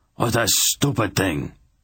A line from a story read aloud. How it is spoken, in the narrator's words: he roared at her